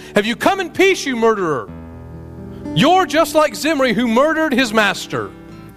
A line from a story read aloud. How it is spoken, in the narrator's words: she shouted at him